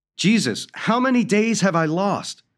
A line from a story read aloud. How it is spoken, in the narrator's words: yelled